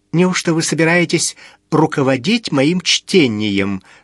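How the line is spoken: Sarcastic yet plaintive question. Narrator (Russian): саркастически осведомилась Лиза, но прозвучало это жалобно

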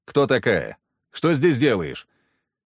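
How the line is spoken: Stern question. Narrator (Russian): Строго спросил

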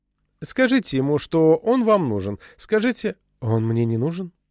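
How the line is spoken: Calm interruption. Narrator (Russian): Спокойно перебил ее Банни Хэнтман

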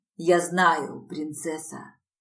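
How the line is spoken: Hoarse rasp. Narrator (Russian): прохрипел он

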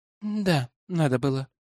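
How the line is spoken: Sighing. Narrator (Russian): вздохнул я

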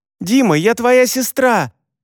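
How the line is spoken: Loud yell. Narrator (Russian): заорала Яна

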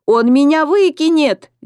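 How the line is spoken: Children wailing. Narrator (Russian): Дети взвыли

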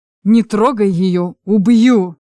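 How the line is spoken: Growling. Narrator (Russian): прорычал Чарослав, сидящий на снегу у телеги

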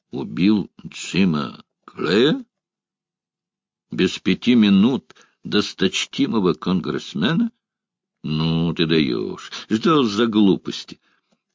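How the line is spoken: Deep voice, smiling. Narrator (Russian): Оскар Гросс, продолжая улыбаться, проговорил своим глубоким голосом

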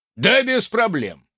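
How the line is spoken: Smirking snort. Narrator (Russian): хмыкнул ультиматор

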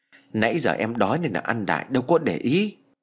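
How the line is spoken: Muttered. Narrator (Vietnamese): Cẩm Hồng cô lẩm bẩm

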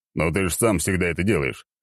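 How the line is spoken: Amused snort. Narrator (Russian): хмыкнул Черномор

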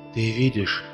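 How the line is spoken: Whispered. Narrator (Russian): шептал мне кто-то

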